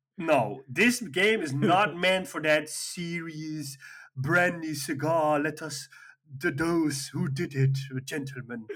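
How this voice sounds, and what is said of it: Put-on British accent. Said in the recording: “you're really going into this British accent.”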